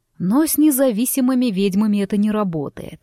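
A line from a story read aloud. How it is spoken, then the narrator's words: Snorting, personal undertone. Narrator (Russian): хмыкнул оборотень, и по его тону мне вдруг почудилось, что тут что-то личное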